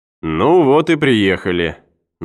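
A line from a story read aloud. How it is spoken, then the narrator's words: Mocking remark. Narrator (Russian): насмешливо заметил Кеннер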